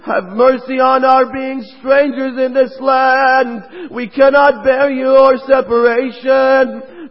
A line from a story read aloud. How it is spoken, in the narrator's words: They all pleaded to him